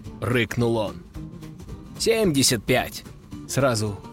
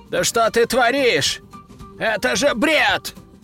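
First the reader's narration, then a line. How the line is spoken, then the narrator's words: Roared. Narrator (Russian): взревел герцог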